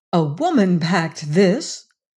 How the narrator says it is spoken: Bess exclaimed

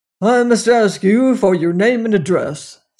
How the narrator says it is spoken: said the constable gruffly

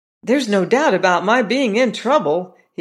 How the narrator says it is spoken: he exclaimed

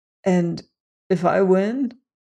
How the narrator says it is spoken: began Rainsford huskily

